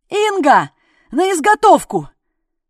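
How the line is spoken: Shouting. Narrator (Russian): выкрикнул Сашка

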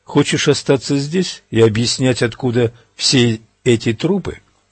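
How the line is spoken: Plain question. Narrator (Russian): спросил стрелок

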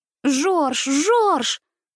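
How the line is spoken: Desperate cry. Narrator (Russian): вскричала я отчаянным голосом

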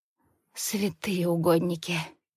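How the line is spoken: Trembling voice. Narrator (Russian): дрожащим голосом произношу

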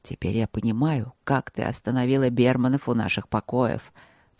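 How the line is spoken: Mutter. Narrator (Russian): пробормотал он

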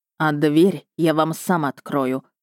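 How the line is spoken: Snorting remark. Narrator (Russian): хмыкнул он

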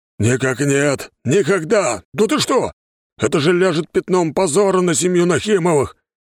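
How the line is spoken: Shouting. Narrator (Russian): кричал Петр Борисович

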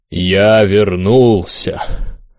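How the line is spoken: Almost bass voice. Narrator (Russian): произнес чуть ли не басом

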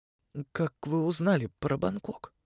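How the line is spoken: Hoarse question. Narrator (Russian): хрипло спросила она

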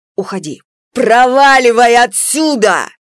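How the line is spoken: Deafening yelling. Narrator (Russian): На нее орали так, что звякали и кастрюли, и старый холодильник

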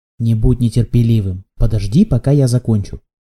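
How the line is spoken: Stern reply. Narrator (Russian): строго ответил Дунфан Неме

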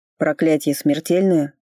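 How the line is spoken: Dry, through barely parted lips. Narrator (Russian): Сухо, почти не разжимая губ, обронил Фарлей

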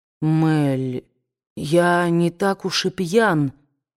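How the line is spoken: Mumbled. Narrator (Russian): пробормотал Эшли

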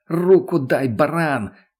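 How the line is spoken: Shouted. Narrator (Russian): крикнул Караваев

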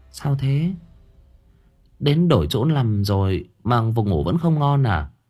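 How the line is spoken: Sighing. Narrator (Vietnamese): Cô lắc đầu thở dài

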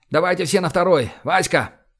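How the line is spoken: Shout. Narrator (Russian): крикнул

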